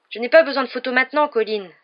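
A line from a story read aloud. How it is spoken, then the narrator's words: Forceful exclamation. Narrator (French): s'écria-t-il avec force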